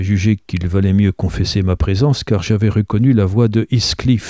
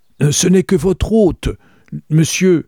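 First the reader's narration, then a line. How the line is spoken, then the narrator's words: Shouted. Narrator (French): criai-je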